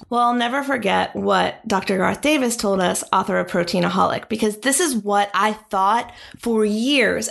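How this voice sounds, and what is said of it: Hoarse, failing voice. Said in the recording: “I'm losing my voice”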